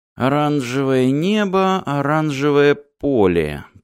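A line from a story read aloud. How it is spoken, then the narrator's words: Mumbling. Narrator (Russian): пробормотал Мартин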